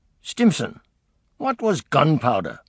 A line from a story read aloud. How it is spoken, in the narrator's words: exclaimed Churchill